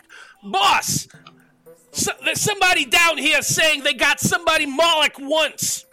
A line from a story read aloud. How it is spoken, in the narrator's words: the Spine Devil yells back